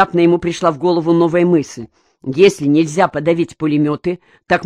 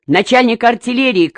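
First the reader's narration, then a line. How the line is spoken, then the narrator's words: Shouted. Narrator (Russian): крикнул Черняков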